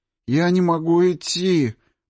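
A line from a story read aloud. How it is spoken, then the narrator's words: Groaning. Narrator (Russian): простонал Морозов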